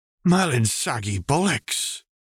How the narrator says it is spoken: Sirius gasped

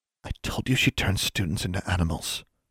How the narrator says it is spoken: Anna whispered

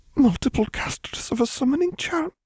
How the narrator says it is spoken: she whispered

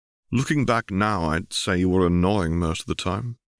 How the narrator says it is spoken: chuckled

